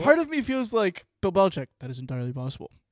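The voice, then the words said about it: Shaq voice impression. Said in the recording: “I did a Shaq accent. Yeah, Shaq voice with Bill Belichick.”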